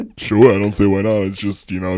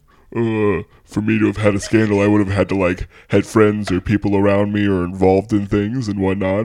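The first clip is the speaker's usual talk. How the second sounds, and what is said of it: Impression of Zach, reality contestant. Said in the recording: “do that impression ... it's just my Zach voice now ... That's so good ... I cannot get over how unexpected that was”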